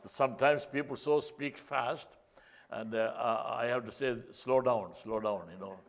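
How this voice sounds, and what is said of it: Non-New York foreign accent. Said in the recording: “I have a different accent. I'm not like people, those who speak from New York.”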